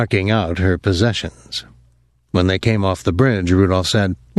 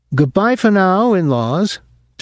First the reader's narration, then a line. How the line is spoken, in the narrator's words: said, and laughed